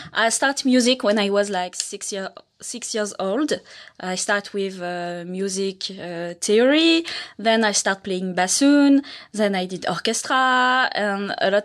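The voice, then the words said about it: French accent in English. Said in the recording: “I have an accent. I'm from France.”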